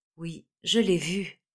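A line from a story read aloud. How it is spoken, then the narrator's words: Jerky interrupting voice. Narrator (French): interrompit la marquise d'une voix saccadée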